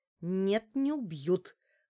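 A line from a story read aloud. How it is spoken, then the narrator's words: Growled reply. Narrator (Russian): прорычала я в ответ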